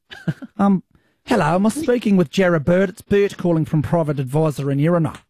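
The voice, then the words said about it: Put-on New Zealand accent. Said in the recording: “a bit of an accent ... Why don't you try a Kiwi one? ... That's good.”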